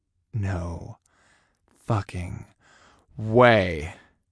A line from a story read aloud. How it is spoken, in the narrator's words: I breathed